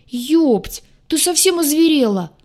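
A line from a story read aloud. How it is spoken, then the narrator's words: Offended howl. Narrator (Russian): взвыл оскорбленный в лучших чувствах штурмовик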